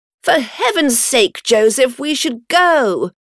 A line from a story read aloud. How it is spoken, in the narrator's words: cried George